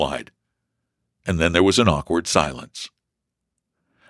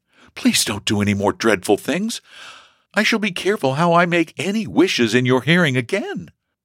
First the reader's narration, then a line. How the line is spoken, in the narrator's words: exclaimed she, panting